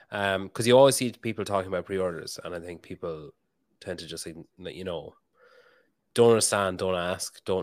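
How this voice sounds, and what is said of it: Strong accent, slightly tired, congested voice. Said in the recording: “my accent is going strong today ... I actually have a bit of a head cold and I'm tired ... Usually, I make a big effort ... to slow down”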